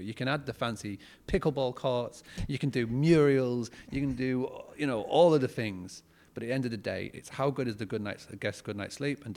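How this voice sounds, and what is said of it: British accent. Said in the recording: “lovely accent, he was our one British guest”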